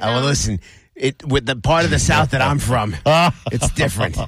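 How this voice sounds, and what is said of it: New York Bronx accent. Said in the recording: “What is that accent? ... You sound like a period from the Bronx.”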